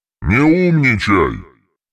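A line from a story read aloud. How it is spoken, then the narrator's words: Furious growl. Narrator (Russian): Альтруист зарычал от ярости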